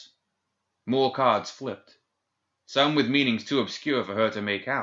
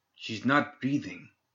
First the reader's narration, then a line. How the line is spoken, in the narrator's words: Santiago whispered urgently